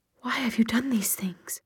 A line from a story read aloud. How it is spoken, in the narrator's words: she said in a hushed voice